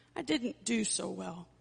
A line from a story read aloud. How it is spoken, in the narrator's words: she sadly said